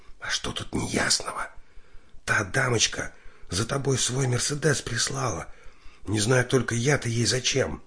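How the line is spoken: Whisper close to ear. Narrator (Russian): Лика прижалась губами к его уху и шепотом объяснила

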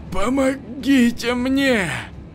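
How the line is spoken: Moaning, choking on blood. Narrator (Russian): стонал Игорь, захлебываясь кровью, насквозь пронзенный тремя торчавшими арматуринами

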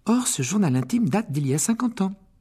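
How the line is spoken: Overexcited voice. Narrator (French): ajouta Hermione d'une voix surexcitée

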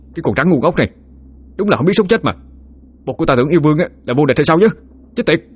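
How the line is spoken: Furious shout through gritted teeth. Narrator (Vietnamese): Khá cũng tái xám mặt mày, nghiến răng nghiến lợi, phẫn nộ mà hét lên

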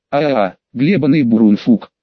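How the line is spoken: Lisping yell. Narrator (Russian): шепеляво проорал он

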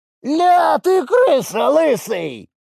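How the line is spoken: Yell. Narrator (Russian): заорал с помоста Сизый

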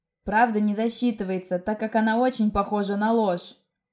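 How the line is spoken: Angry, through clenched teeth. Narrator (Russian): Зло процедил он сквозь белые идеально ровные зубы

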